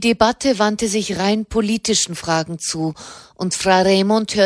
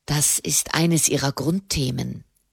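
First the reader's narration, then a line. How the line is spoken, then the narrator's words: Quiet explaining. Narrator (German): erklärte Soderini leise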